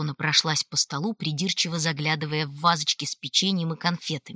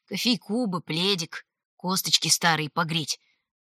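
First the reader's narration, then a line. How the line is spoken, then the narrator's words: Muttering. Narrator (Russian): Продолжала бормотать Ритва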